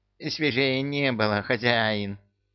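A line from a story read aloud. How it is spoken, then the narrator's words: Wheezy imitation. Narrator (Russian): подражая Люке, просипел он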